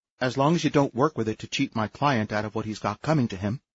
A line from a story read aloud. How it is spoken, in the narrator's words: said Lola firmly